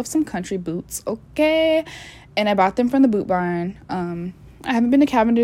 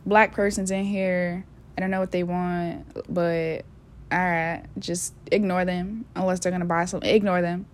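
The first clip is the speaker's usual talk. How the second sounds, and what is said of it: Put-on country accent. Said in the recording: “put on my country voice.”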